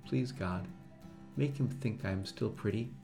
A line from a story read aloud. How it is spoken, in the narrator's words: now she whispered